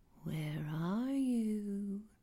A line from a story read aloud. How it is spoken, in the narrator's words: whispered under my breath